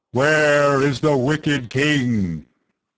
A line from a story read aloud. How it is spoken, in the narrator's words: a voice thundered